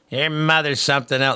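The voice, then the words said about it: Imitates another person's voice. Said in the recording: “That's not a very good Louie impression, but it's the best I can do.”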